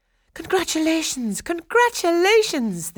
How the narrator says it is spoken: they cried

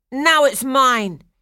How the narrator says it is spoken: shouted

